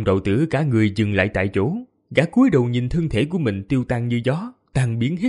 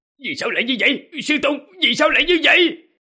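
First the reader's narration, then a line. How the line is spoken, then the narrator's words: Desperate, frenzied shouting. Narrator (Vietnamese): Long đạo tử tuyệt vọng, gã quát lên điên cuồng giống như một người điên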